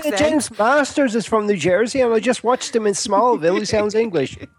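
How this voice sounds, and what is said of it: Irish accent. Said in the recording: “Oh, Ireland. I thought the accent might have given it to you.”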